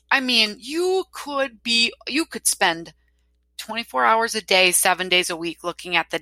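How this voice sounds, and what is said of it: Wisconsin accent. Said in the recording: “me and my Wisconsin accent”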